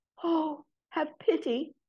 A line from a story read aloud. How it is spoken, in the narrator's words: she said in a whispery voice